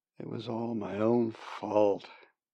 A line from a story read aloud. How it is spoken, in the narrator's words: said miserably